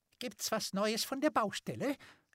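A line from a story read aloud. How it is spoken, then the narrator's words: Squeaky voice. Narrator (German): Stimme vom Professor piepsen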